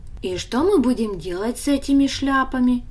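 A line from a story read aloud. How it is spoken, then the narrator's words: Plain. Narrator (Russian): спросил Даня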